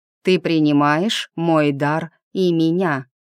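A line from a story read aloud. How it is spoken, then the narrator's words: Clear loud measured words. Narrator (Russian): принц четко, громко, чеканя каждое слово, произнес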